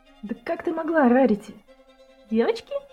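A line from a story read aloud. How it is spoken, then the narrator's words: Giggling. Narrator (Russian): хихикнула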